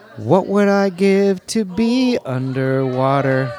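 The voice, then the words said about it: Sung impression of another person. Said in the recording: “do a Daryl Hannah impression ... and sing”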